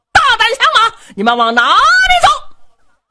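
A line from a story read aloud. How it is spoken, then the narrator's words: Angry shouting. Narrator (Chinese): 唐璧气坏了，在后边高声喊嚷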